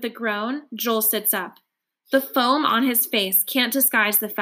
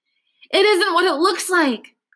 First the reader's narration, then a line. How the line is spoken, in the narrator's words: gasp